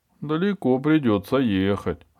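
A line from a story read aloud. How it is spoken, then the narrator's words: Laughing. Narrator (Russian): рассмеялся Эберхард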